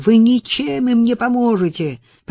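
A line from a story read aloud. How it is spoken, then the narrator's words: Protesting exclamation. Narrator (Russian): протестующе воскликнул Холлис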